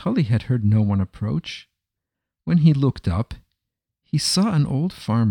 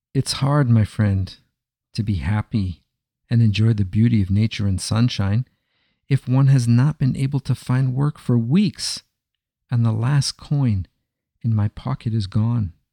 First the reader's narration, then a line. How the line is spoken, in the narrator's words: replied Naftoli